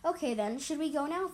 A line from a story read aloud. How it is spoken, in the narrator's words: Fader asked impatiently